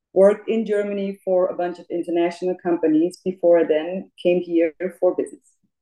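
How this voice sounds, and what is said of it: German accent. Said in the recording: “As you can probably hear already, I do have an accent. I was born and raised in Munich, Germany”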